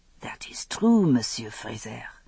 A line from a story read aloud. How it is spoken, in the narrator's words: he said softly